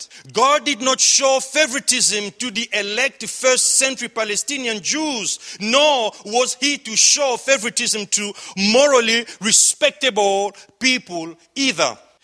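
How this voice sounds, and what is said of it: Noticeable accent. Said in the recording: “he doesn't see my accent.”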